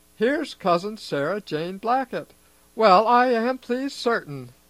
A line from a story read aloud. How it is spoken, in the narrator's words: exclaimed Mrs